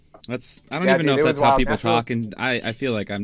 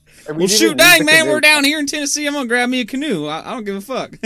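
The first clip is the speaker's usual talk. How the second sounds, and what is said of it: Exaggerated put-on Southern accent. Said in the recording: “I'm just using a crazy, ridiculous Southern accent”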